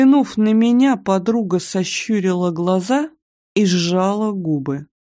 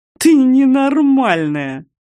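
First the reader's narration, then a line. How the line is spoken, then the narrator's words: Hoarse through laughter. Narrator (Russian): Прохрипела я сквозь смех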